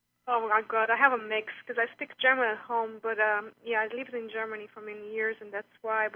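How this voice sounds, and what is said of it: European accent. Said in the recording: “Tell ... by her European accent. She stands out.”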